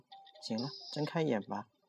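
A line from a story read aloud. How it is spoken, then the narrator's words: Quiet voice. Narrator (Chinese): 老王……又小声说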